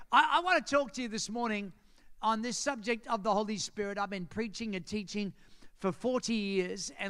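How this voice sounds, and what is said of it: Australian accent. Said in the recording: “You have an accent... the Australian accent”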